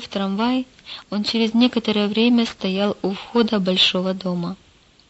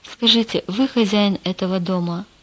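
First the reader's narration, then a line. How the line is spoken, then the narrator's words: Plain. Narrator (Russian): сказал Петр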